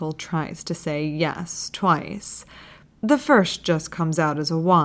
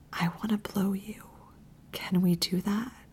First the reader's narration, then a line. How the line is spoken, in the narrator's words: Jeremy whispers